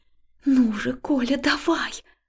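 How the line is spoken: Whisper. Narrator (Russian): прошептала я

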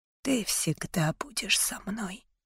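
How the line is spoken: Whisper. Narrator (Russian): прошептал он

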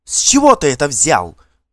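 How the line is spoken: Indignant shout. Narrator (Russian): возмущенно крикнула Далла

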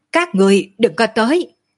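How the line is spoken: Shouted. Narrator (Vietnamese): hét

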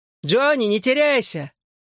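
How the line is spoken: Shout from behind. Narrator (Russian): крикнул сзади кто-то из парней

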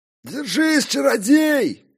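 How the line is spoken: Bearded man bellowing. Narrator (Russian): Гаркнул в ухо бородач

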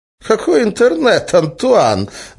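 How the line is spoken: Laughing. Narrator (Russian): засмеялся Разум

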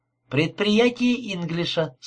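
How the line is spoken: Plain. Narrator (Russian): сказала она

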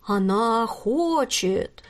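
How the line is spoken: Grave, sepulchral voice. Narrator (Russian): за могильным голосом продолжила Милада

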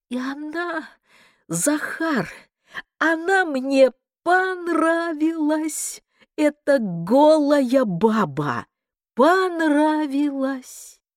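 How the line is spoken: Thin jubilant voice. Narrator (Russian): рассмеялся, оборвал свой смех и не своим, а тонким ликующим голосом проговорил

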